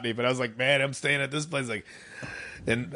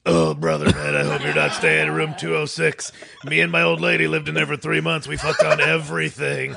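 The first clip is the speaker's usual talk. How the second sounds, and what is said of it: Exaggerated version of own voice. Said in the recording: “my best ... impersonation, which is just an exaggerated version of myself”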